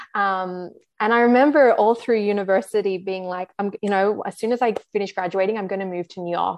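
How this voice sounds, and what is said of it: Australian accent. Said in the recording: “I'm Australian for those who can't probably pick up on the accent.”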